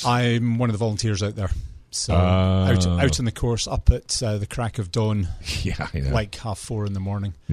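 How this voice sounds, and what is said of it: Scottish accent. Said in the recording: “it's that accent ... I can't say a whole lot negative about Scotland”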